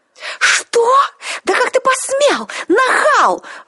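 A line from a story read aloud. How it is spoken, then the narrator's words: Outraged howl. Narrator (Russian): взвыла повелительница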